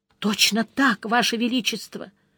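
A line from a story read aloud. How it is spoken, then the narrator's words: Weak voice, soaked guardsman. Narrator (Russian): Слабым голосом поддержал мокрехонький гвардеец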